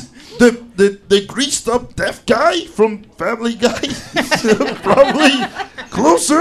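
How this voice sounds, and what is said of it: Usual voice. Nothing is said of it.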